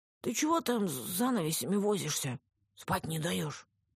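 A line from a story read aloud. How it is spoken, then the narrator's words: Sleepy, hoarse, menacing. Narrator (Russian): Сонный голос жены звучал хрипло и грозно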